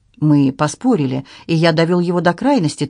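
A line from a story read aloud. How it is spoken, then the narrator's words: Hurried. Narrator (Russian): торопливо добавил Анри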